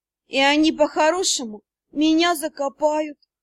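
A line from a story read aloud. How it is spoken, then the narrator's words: Moaning. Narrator (Russian): простонала я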